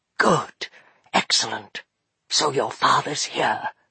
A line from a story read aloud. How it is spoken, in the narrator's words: Fenolio whispered to Maggie